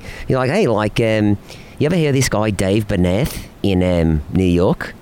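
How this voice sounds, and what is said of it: Poor put-on Australian accent. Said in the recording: “my manager's Australian, and I do a horrible Australian accent, but I will attempt it”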